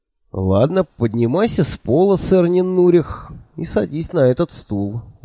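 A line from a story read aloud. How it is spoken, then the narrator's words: Sighing. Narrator (Russian): вздохнул я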